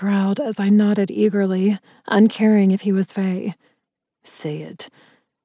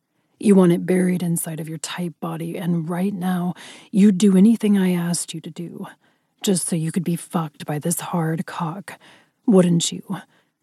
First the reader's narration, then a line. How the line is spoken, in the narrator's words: He growled